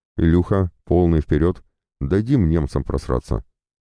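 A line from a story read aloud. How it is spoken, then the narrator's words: Angry, through gritted teeth. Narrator (Russian): Чуть оживившийся мехвод зло процедил сквозь зубы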